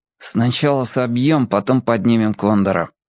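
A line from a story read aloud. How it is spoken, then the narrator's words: Through gritted teeth. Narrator (Russian): сквозь зубы ответил Генка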